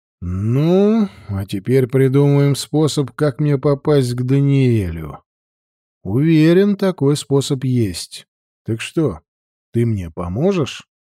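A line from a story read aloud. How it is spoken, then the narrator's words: Sorceress sighing. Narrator (Russian): Чародейка вздохнула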